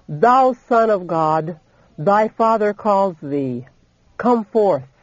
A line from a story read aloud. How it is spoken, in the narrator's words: the angel from heaven, with a voice that caused the earth to quake, cried out